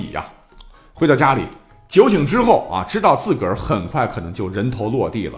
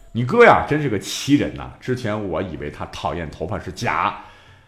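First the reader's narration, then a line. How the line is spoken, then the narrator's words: Admiring. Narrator (Chinese): 赞叹的说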